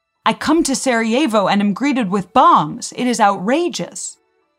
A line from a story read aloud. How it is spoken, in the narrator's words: the Archduke loudly interrupted him, saying